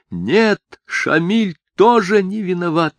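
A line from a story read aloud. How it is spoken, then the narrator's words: Sobbing near-shout. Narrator (Russian): почти крикнула она, рыдая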